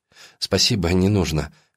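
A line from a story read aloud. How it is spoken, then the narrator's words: Dismissive. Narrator (Russian): отмахивается она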